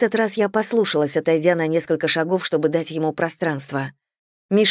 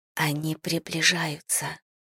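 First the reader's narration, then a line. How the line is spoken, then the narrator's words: Whisper. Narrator (Russian): я прошептала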